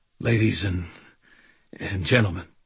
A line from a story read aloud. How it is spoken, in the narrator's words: he said, stammering a little